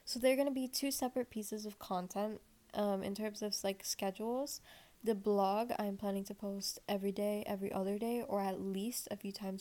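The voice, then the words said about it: Raspy voice. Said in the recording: “my voice is being raspy today ... the raspiness kind of increases throughout this episode”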